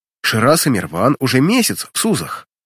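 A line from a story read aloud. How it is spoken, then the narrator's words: Indignant outburst. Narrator (Russian): Возмущенно выплескивает Барсина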